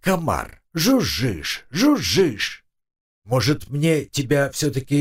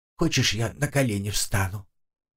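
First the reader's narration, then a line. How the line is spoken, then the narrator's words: Quiet ghostly voice. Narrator (Russian): тихо проговорил призрак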